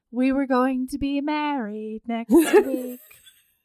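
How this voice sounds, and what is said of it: Impression of Elaine. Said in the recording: “That's a great Elaine impression.”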